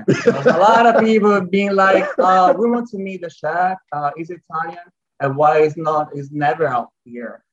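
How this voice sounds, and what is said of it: Italian accent. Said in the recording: “yes, I'm Italian, 100% Italian. And now you can also hear my lovely accent ... you can hear it in his accent like, now.”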